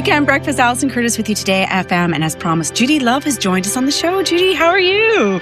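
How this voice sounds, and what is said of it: Mixed Canadian and Irish accent. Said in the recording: “I love your accent. Oh, It's gorgeous. ... It started in Canada, but it's been in Ireland for 25 years plus. ... it's just a mix”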